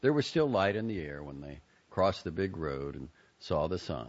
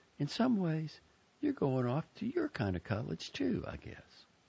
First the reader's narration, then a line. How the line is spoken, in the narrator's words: she smiled at Buddy and said kindly